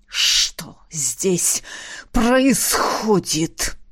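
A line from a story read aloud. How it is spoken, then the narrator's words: Clipped hiss. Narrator (Russian): Чеканя каждое слово, прошипел полковник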